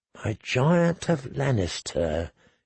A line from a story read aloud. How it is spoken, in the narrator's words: she murmured